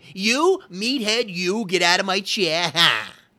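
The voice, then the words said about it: Archie Bunker character impression. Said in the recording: “Archie Bunker with All in the Family ... impersonations”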